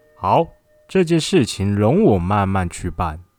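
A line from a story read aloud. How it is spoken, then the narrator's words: Laughing. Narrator (Chinese): 陆判官笑着说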